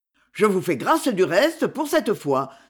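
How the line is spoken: Curt. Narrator (French): dit le prince d'un ton bref

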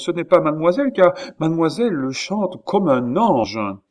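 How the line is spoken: Exclamation. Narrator (French): s'écria Rousseau

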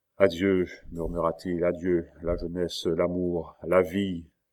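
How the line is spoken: Sighing low voice. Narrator (French): Un soupir gonfla sa poitrine et, à voix basse

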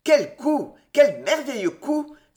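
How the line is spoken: Exclaiming excitedly. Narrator (French): s'écria-t-il

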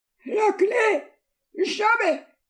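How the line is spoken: Hoarse murmur, old miser. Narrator (French): murmura l'avare d'une voix rauque

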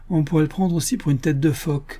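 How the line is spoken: Said laughing. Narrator (French): dit en riant Joe Bevins, le petit caporal

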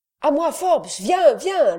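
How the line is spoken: Shouting. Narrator (French): lui cria-t-il

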